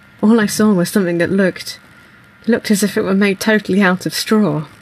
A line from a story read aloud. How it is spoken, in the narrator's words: As he comes round from being choked, he says